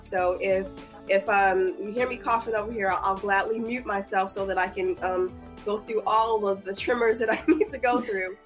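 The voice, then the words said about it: Hoarse, fading voice. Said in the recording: “my voice is going out”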